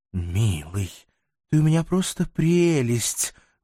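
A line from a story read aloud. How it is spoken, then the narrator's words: Tender whisper. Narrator (Russian): ласково шептала Азриэлла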